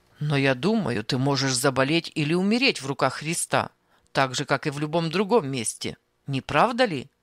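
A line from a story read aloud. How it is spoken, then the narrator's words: Rudely interrupting. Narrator (Russian): Грубо прерывал он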